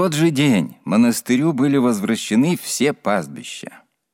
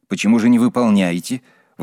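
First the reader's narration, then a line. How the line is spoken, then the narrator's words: Indignant question, several voices. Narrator (Russian): возмущенно спросили чиновники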